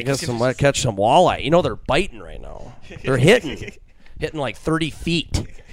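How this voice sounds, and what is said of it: Minnesota-accented imitation of a dad. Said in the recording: “great impression of your dad ... it's just so Minnesota to a T”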